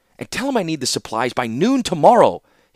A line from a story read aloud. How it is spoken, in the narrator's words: he snapped impatiently